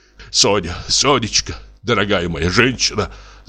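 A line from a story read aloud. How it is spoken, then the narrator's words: Hurried interrupting mutter. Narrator (Russian): забормотал он, мешая ей говорить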